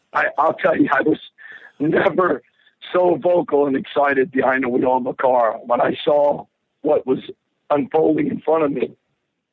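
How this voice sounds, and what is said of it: Hoarse, strained voice. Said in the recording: “I apologize about my voice, but it started losing my voice about 10 yards from the finish line... I screamed for the next 50 seconds”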